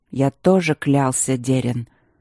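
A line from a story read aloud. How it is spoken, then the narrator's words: Much softer. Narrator (Russian): куда более мягко сказал Итан Бенедикт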